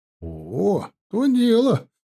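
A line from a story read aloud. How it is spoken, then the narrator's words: Surprised and delighted. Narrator (Russian): удивленно радостно комендант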